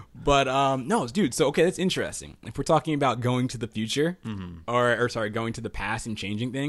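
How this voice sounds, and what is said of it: Usual voice. Nothing is said of it.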